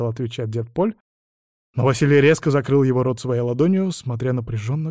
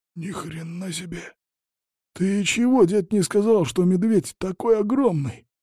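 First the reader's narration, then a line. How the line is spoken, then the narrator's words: Whispered. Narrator (Russian): прошептал Василий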